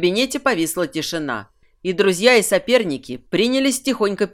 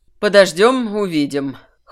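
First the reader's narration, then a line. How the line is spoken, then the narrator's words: Skeptical snort. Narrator (Russian): хмыкнул Кирсан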